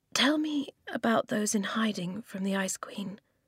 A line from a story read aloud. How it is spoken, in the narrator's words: Eska said quietly